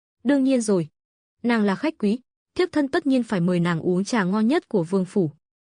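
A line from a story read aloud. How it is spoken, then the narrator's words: Smiling reply. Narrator (Vietnamese): Mục Tử Huyên mỉm cười đáp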